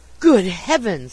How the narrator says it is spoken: he gasped, while his face turned as pale as ashes

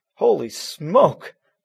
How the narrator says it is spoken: Matt exclaimed

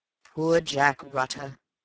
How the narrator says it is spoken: said Raffles with a sigh

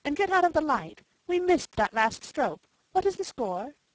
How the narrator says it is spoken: exclaimed Jane

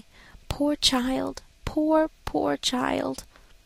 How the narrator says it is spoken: whispered compassionately

